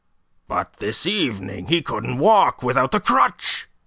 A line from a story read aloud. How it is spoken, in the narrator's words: exclaimed